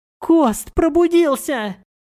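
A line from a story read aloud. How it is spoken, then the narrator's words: Yelled. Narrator (Russian): Заорал он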